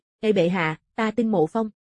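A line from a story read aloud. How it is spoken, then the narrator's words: Laughing loudly. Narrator (Vietnamese): Thương Hồng Thâm cười lớn, rồi nói với Triệu Tử Diệp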